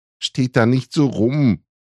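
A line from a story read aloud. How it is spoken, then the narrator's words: Desperate shout. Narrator (German): rief verzweifelt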